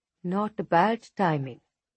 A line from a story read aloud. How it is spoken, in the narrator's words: Musa says